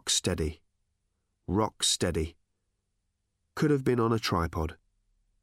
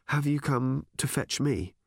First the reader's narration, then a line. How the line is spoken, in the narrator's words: asked calmly